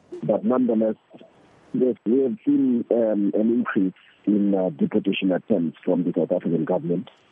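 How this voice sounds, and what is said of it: Sick, weakened voice. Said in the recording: “I hope I'm audible enough from coming up with the flu... I'm hoping that my voice is audible enough”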